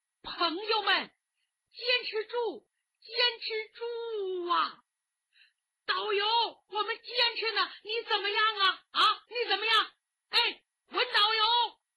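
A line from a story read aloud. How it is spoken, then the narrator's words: Desperate loud shouting. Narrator (Chinese): 昏死过多次，每当一醒，就要大声的喊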